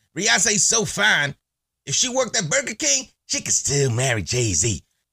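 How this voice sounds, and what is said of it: Imitates another person's voice. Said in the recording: “my Chris Rock impression ... my amazing, amazing Chris Rock impression”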